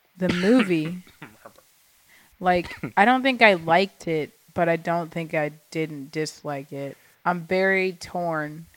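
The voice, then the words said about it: Very slow, drowsy speech. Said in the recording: “I'm talking very slow. ... I've been on, like, codeine and lack of sleep”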